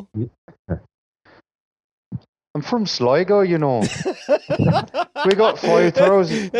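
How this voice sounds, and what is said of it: Attempted Irish accent, sounds Scottish. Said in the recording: “say it in your Irish accent ... That's a Scottish. ... That is a Scottish guy doing a Canadian accent.”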